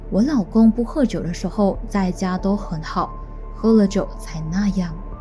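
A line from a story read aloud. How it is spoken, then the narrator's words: Deep sigh. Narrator (Chinese): 赵斗淳的太太，他就深深地叹了一口气，指出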